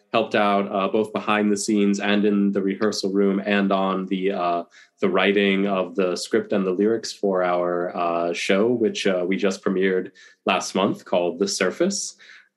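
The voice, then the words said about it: Deep, husky voice from illness. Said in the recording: “I've recently been waylaid by COVID, which is why my voice is even more deep and husky and resonant than usual ... a deep, commanding, powerful voice ... full Darth Vader like it is now”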